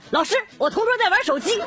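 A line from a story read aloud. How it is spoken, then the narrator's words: Sudden loud shout. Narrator (Chinese): 同桌突然举手大喊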